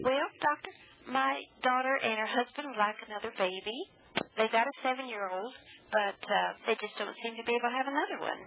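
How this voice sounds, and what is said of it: Nashville Southern accent. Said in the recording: “that Nashville accent”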